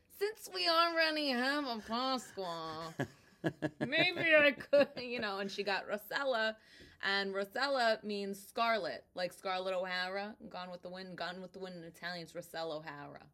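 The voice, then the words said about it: Brooklyn accent. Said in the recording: “She has such a great accent. ... I'm from Brooklyn. ... That's Brooklyn?”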